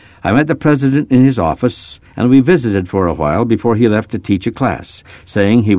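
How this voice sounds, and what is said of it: Usual voice. Nothing is said of it.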